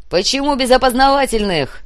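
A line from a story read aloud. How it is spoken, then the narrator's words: Shout. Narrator (Russian): крикнул ФСБшник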